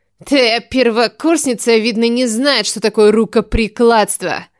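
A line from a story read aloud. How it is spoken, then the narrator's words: Mocking laugh, young woman. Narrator (Russian): Засмеялась эта девушка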